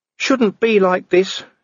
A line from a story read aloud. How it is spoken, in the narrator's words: he whined